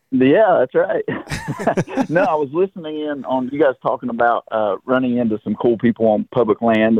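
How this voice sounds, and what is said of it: Thick southern accent. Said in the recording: “your southern accent ... Yeah, it's pretty thick.”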